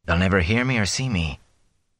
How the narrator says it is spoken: he whispered to himself

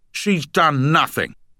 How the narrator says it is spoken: he shouted

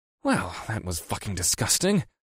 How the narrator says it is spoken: muttered to no one in particular

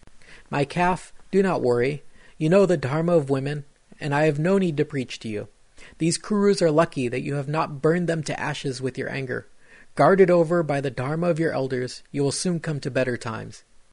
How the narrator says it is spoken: she tearfully turned to her daughter-in-law Draupadi and said

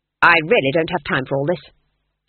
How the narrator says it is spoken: snapped Granny, trembling

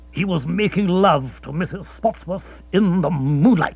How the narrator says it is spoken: said curtly

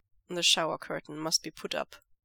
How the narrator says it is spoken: Lanjian says

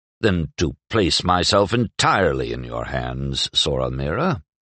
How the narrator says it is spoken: murmured Chadro

